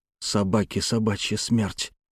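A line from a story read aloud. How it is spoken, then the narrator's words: Quiet. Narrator (Russian): тихо произнес он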